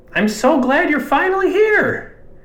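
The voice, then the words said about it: Weird high-pitched male voice. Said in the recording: “in this kind of weird high voice for a man as big as he was ... I think that's kind of roughly how he sounded”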